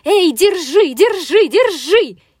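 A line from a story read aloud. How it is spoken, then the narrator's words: Breathless shout while running. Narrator (Russian): кастрюля на бегу закричала утюгу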